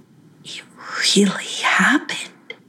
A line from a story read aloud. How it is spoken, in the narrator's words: she whispered to herself